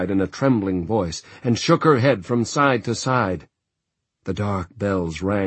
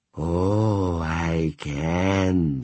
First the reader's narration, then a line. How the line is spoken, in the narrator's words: she breathed